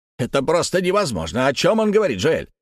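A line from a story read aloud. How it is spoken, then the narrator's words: Annoyed exclamation. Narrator (Russian): С досадой воскликнул дядюшка Антифер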